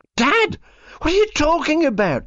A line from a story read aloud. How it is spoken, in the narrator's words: the son screams